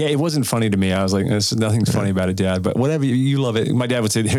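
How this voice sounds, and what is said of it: Usual voice. Nothing is said of it.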